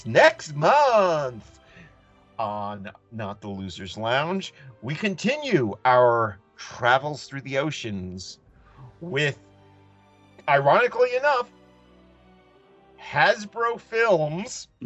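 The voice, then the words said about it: Imitated announcer-style voice. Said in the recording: “as I'm trying to do my Andrew Leyland voice”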